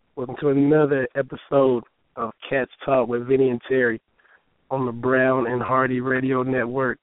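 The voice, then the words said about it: Slightly hoarse voice. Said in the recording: “I'm a tad bit hoarse ... The vocal cords are struggling.”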